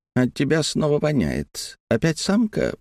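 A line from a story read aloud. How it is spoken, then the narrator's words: Purring. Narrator (Russian): промурлыкал Страйгер со своего насеста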